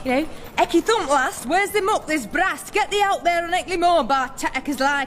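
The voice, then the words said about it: Put-on northern English accent. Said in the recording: “What about our accents? ... I thought I'd go for, like, up north.”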